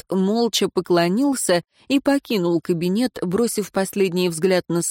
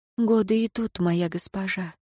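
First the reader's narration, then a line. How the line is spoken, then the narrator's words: Quiet reply. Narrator (Russian): тихо ответила Лейра Дорин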